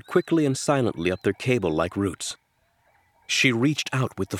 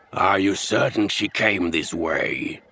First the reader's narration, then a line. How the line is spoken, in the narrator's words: a raspy voice asked